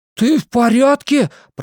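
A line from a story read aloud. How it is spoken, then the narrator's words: Shouting. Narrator (Russian): прокричал Бен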